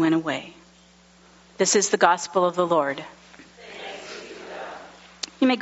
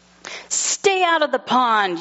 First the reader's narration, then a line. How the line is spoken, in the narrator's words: yelled Milton